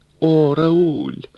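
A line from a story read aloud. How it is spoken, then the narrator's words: Catlike coaxing purr. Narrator (Russian): покошачьи, ластясь к нему, промурлыкала Паула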